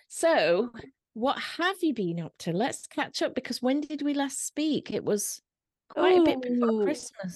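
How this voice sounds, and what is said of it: Slightly mixed Yorkshire accent. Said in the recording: “I'm the Yorkshire one with a slightly weird accent because it's got bits of everything in it.”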